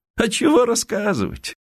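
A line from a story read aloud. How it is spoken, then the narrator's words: Interrupting, laughing. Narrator (Russian): перебил Михаил Никифорович, смеясь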